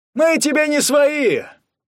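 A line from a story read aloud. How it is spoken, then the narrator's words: Shouted from audience. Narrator (Russian): крикнули из зала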